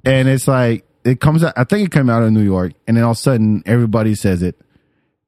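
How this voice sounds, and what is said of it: French accent in English. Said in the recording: “It's the accent. It's a little bit of accent... The French comes out”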